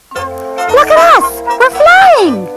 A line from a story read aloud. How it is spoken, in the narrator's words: shouted